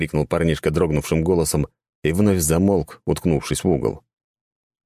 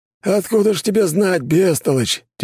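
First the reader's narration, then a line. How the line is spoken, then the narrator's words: Heavy sigh. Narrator (Russian): тяжело вздохнул Федор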